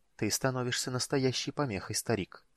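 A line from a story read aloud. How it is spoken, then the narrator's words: Quiet. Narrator (Russian): тихо сказал он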